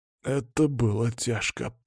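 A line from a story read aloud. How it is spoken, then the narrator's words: Hoarse rasp. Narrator (Russian): прохрипел Андрей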